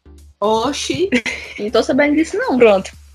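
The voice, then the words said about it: Put-on Bahian accent. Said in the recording (Portuguese): “Ela fala sotaque baiano, eu falo paulista.”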